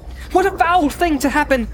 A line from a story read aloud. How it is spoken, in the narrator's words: cried Frodo wildly